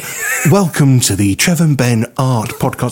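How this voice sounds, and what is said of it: Changed, cultured art-presenter voice. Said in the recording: “I'm just changing my voice. We can appeal to a different audience now... We're bringing in the cultured audience, so I'll put on my art voice.”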